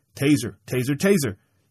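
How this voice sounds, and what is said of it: Imitates a police taser warning. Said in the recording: “my taser impersonation.”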